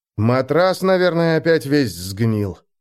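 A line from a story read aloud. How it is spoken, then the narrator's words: Grumbling. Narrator (Russian): проворчал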